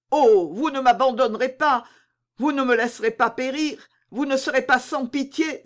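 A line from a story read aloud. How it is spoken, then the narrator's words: Exclaimed. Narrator (French): s'écria Mordaunt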